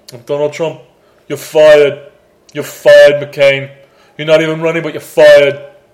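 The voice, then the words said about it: Imitates another person's voice. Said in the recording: “That's pretty solid impersonation.”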